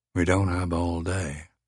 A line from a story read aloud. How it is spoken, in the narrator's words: Laramie said gently